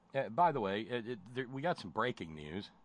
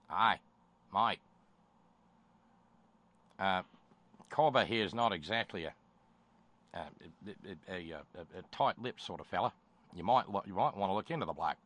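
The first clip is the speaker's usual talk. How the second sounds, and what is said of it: Put-on Australian accent. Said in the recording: “I did the terrible Australian accent again ... my Australian accent's not so bad”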